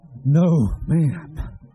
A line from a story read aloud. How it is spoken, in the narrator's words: Shooter panted